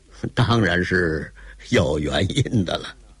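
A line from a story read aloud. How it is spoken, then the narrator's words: With a laugh. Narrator (Chinese): 铁先生又是一笑，欲言又止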